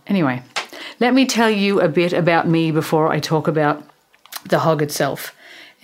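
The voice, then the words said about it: Irish accent. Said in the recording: “People don't understand my Irish accent all the time.”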